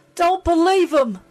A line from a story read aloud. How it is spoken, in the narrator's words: Jen cried